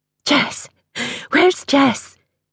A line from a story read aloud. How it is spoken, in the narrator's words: she panted